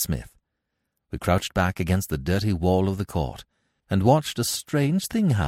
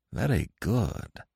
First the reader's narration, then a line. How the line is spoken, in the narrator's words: muttered Nayland Smith